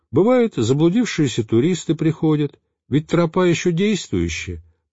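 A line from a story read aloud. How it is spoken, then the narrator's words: Thin high voice explaining. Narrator (Russian): принялся пояснять тоненьким голоском отец Херувим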